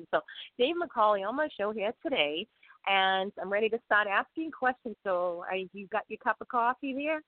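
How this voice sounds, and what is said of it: Boston accent. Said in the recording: “I have a Bostonian accent, I butcher people's names ... I'll never escape the Bostonian accent.”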